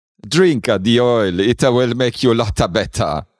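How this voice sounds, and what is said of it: Put-on Italian-American accent. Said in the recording (German): “Dialekten oder Akzenten ... I'm Italian, Nick Nolte ... Nick Nolte spricht so.”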